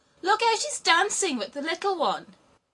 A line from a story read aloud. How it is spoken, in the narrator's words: laughed and said